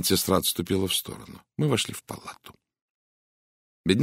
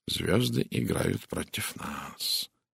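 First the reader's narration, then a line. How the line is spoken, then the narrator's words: Quiet. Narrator (Russian): тихо сказал Пуаро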